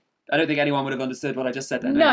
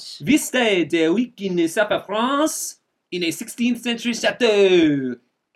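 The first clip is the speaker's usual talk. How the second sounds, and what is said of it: Put-on French accent. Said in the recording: “I think I will do the French accent.”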